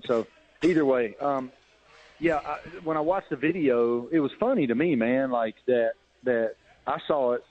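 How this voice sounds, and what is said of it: Appalachian Southern accent. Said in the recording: “mine's not real, they ain't never been to Appalachia”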